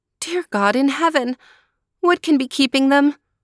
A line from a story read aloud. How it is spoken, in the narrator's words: Maruschka cried anxiously